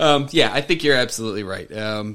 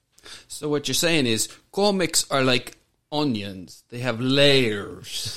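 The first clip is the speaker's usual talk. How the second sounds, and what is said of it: Shrek character voice impression. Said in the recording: “my best Shrek impression.”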